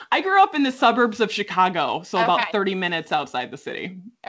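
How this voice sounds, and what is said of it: Midwestern American accent. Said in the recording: “I hear like Midwest. ... I hear the accent. I love it.”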